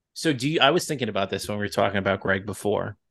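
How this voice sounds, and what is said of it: Long Island accent. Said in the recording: “my Long Island accent because I just hit talking hard there.”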